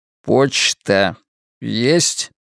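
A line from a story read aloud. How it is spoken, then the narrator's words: Slow repetition. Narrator (Russian): медленно повторил я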